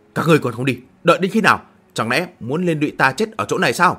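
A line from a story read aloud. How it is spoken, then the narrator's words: Loud angry shout. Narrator (Vietnamese): tức giận quát lớn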